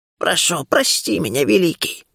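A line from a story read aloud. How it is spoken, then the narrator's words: Hoarse rasp. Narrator (Russian): прохрипела она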